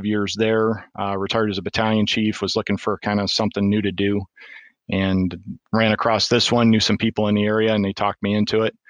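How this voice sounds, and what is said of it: Michigan, northern US accent. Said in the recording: “your accent wasn't something that you would typically hear from Arkansas ... you're from Michigan”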